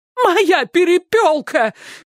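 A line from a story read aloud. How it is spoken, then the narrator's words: Frantic scream. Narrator (Russian): крикнула она истошным голосом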